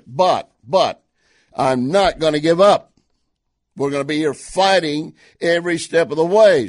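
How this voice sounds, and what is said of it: Strained, not fully recovered voice. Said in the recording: “my voice is still not quite recovered ... I'm not sure if my voice can cover it”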